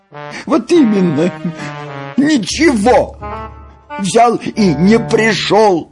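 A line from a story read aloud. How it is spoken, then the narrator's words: Holding back sobs. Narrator (Russian): сказала Нюша, едва сдерживая рыдание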